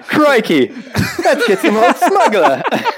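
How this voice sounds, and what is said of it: Put-on Australian accent. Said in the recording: “say that in an Australian accent”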